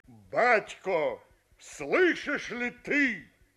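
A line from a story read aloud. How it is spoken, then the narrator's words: Dying man's cry. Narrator (Russian): Остап перед смертью крикнул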